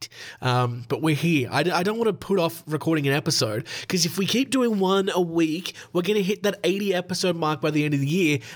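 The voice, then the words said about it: Sick, rough voice. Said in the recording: “I'm still sick, can you believe it? My voice is, it's absolutely fucked.”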